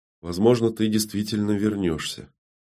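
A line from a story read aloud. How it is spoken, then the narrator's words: Quiet, forced words. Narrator (Russian): Фата, пересилив себя, негромко произнесла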